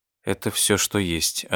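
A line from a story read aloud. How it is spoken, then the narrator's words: Plain. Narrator (Russian): ответил Пол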